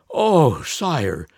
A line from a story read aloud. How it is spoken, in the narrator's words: groaned the Grand Vizier after a few hours' flight